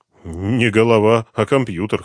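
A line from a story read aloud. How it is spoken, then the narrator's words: Snorted. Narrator (Russian): хмыкнул Дронго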